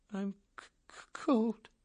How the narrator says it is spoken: Snowden whimpered

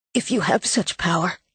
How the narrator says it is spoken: Gabe whispered

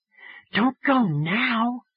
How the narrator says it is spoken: Phoebe whispered

